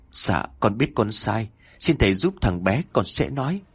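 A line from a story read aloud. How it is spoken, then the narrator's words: Trembling voice. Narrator (Vietnamese): Chồng của bà Hương giọng run rẩy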